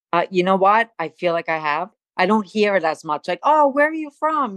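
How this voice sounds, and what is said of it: Staten Island New York accent. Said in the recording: “The born in Brooklyn, the raised in Staten Island thing ... you have not lost the accent ... do you hear a New York accent?”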